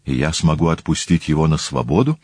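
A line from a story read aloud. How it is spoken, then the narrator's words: Plain. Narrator (Russian): спросил Полибий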